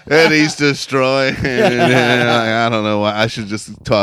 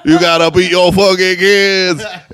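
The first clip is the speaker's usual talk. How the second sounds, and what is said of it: Cajun accent imitation. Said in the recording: “that sweet Cajun accent.”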